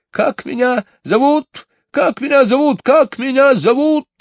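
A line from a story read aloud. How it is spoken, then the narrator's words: Shrill, uneasy bird's cry. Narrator (Russian): пронзительно закричал скворец, чувствуя какое-то беспокойство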